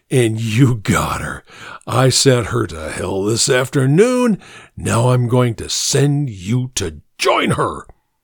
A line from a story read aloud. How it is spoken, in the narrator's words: said huskily